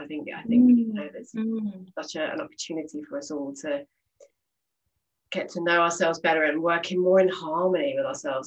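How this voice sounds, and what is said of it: British English accent. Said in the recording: “chatting with a fellow Brit ... it's so nice to hear that familiar accent”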